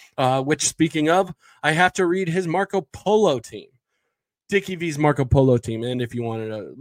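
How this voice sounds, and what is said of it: Usual voice. Nothing is said of it.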